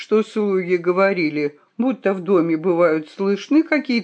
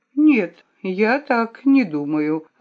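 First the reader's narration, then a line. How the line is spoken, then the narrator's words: Calm answer. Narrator (Russian): ответила я спокойно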